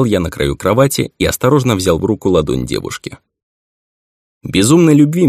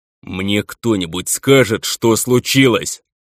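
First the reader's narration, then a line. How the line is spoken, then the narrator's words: Impatient growl. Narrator (Russian): Растеряв последние крохи терпения, зарычал я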